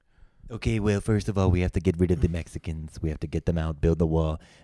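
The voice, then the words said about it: Imitates another person's voice. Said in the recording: “You think you have a good Trump, and your Trump sucks ... Hear your Trump.”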